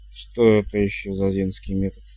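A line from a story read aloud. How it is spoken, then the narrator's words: Grumbled mutter. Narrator (Russian): буркнул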